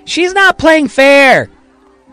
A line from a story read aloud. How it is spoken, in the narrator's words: Johnny Shelby yells in Marion's direction